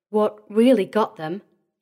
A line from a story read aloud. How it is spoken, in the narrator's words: said, trying to speak evenly